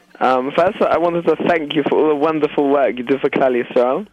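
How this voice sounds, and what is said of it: English accent. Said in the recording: “I understand from your accent is that you are from England”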